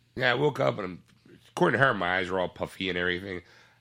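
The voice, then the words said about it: Stuffy, congested voice. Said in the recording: “I can't hit that note because I have a cold. ... I am suffering with a little bit of a head cold today.”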